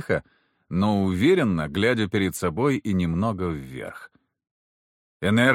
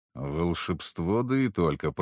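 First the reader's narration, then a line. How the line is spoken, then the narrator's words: Muttered. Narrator (Russian): пробормотал я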